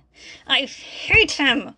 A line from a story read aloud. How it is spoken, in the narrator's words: she said through clenched teeth